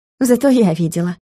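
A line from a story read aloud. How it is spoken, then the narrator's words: Amused snort. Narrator (Russian): хмыкнула Юля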